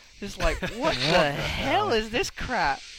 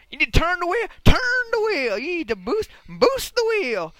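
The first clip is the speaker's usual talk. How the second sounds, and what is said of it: Impression of a TV commercial. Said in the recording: “going to do my impression of that commercial”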